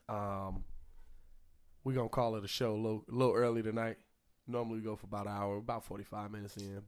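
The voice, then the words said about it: Strained, fading voice. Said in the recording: “losing my voice from the rant”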